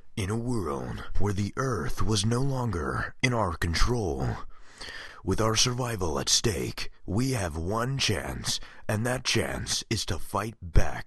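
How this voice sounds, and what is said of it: Deep movie trailer announcer voice. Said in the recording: “my movie trailer guy impression”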